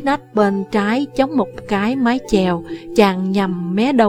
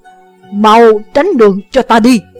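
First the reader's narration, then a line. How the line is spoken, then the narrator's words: Shout. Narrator (Vietnamese): Chàng quát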